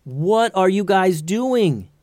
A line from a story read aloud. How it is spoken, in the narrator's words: yelled Tatiana